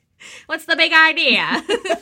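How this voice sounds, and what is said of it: Put-on transatlantic accent. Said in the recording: “That was our transatlantic accent.”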